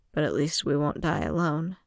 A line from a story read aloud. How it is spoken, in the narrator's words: he said quietly